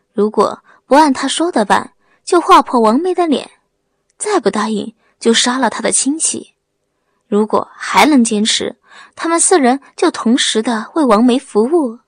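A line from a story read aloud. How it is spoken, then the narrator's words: Sneering, low voice. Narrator (Chinese): 穿着咖啡裤的高个子冷笑，沉声地说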